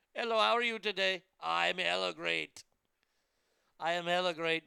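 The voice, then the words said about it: Put-on call center guy character voice. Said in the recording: “I only do that if I'm uh, impersonating Chad or Dirk ... I'm from the call center, yes, in, in Irvine, California.”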